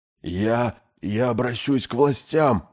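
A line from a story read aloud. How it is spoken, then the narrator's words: Hoarse rasp. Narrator (Russian): прохрипел капитан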